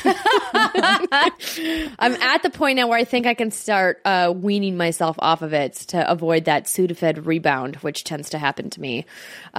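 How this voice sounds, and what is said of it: Buttery, sultry, slightly wonky voice. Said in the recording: “You had like a nice, like buttery element to your voice there ... coming off of 5 days of a head cold ... my voice is a little weird, a little wonky ... It's got a sultry kind of tone to it.”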